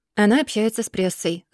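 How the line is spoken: Calm reply. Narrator (Russian): спокойно отвечает тот

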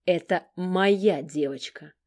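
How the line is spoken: Restrained, near growling. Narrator (Russian): Стараясь не сорваться на рычание

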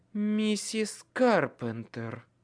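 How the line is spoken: Menacing correction. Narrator (Russian): грозно поправила

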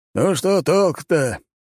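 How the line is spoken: Sigh. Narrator (Russian): Лажон вздохнул

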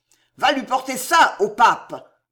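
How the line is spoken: Old soldier bellowing. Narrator (French): vociféra le vieux routier

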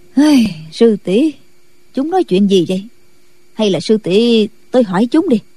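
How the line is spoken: Confused sighing old woman. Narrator (Vietnamese): Định Vật sư thái càng không hiểu được đầu đuôi ra sao, bà thở dài nói

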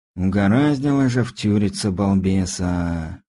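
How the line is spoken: Heavy sigh. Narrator (Russian): тяжело вздохнул Стас

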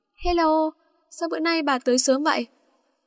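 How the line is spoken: Smiling. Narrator (Vietnamese): mỉm cười Kim nói

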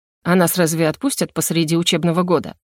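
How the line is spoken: Feigned indifferent snort. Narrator (Russian): Напоказ безразлично фыркнула

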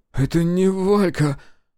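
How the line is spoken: Breathless frightened male voice. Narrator (Russian): Выдохнул Воробьев, безумным, испуганным

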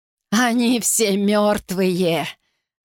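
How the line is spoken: Hoarse chuckle. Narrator (Russian): с хриплым смешком выговорил Карлстен

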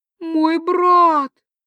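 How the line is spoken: Muffled anguished moan. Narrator (Russian): приглушенно простонала принцесса, словно вампир сообщил ей о неизлечимой болезни родственника

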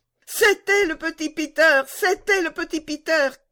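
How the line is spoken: Shouting. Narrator (French): cria Gerda

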